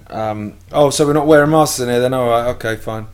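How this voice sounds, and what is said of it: Passive-aggressive Welsh accent. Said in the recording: “In the Welsh accent... it's like a passive-aggressive Welsh thing.”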